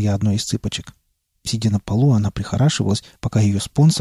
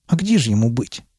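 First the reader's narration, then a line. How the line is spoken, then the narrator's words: Snort. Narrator (Russian): фыркнула она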